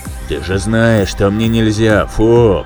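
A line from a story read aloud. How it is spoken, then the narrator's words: Deep booming voice. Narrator (Russian): пробасил Айра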